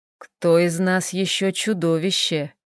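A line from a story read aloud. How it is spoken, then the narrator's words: Heavy sigh. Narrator (Russian): Тяжко вздохнул Хел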